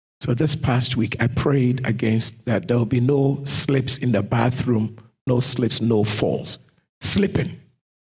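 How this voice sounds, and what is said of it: Slightly hoarse voice. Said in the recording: “my voice is now a little hoarse.”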